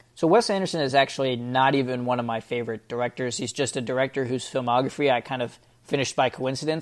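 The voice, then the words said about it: Slightly hoarse voice. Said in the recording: “my voice sounds a little bit hoarse.”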